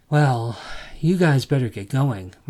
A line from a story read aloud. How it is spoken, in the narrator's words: Martin sighed